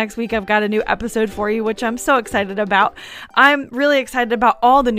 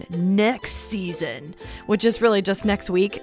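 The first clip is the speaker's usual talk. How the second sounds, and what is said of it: Put-on deep trailer voice. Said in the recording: “with that guy with the deep voice ... that's as low as it gets ... try that deep voice again”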